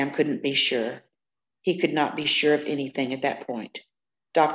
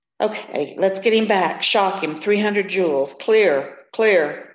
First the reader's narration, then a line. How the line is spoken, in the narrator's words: Sam shouted